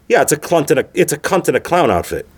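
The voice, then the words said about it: Put-on English accent. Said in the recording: “in an English accent”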